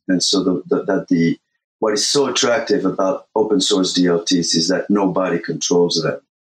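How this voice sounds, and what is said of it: French accent. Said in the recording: “my crappy French accent”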